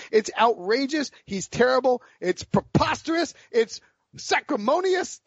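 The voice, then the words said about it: Imitates another person's voice, ranting. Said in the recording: “my Jackie Childs impersonation ... That was a good rant”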